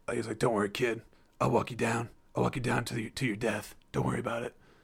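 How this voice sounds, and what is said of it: Deep masculine voice impression. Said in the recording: “my Bruce Willis impression. It's not good at all. It's like deep masculine man.”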